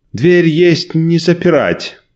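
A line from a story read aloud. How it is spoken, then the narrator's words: Shout. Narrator (Russian): крикнул Николай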